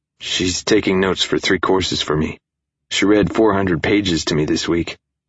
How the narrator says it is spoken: he said

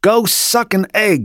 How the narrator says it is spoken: she yelled

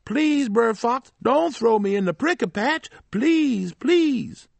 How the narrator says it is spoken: he yelled out

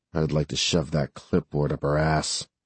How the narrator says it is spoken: Jess muttered

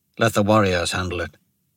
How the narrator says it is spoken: Devadas muttered

